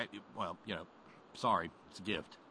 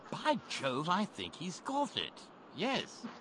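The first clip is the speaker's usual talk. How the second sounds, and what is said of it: Put-on English accent. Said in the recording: “you break out a better English accent than me”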